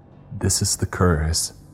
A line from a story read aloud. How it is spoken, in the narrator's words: Jonas said shakily